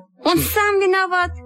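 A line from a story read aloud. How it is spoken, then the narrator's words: Exclaiming. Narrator (Russian): воскликнула Сима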